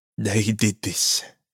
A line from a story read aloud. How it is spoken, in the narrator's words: the father said, his voice quaking